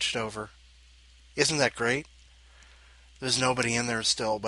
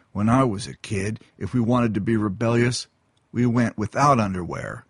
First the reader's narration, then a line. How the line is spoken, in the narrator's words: he grumbled